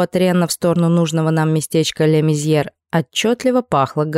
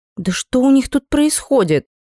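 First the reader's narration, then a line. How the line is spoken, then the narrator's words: Exclaiming. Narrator (Russian): воскликнула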